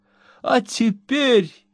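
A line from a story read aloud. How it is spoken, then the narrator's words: Sobbing. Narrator (Russian): рыдала миссис Пот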